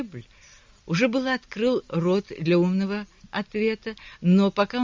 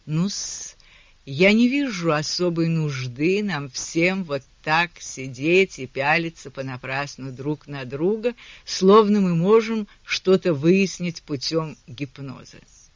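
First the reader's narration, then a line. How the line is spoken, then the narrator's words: Sepulchral voice. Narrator (Russian): Перри Персифаль вымолвил за могильным голосом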